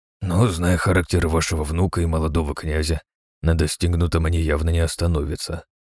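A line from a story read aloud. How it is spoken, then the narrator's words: Hesitant, quiet. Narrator (Russian): замялся и тихо добавил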